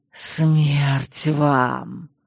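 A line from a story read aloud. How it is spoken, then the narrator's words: Vengeful whisper. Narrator (Russian): мстительно шепнул бессмертный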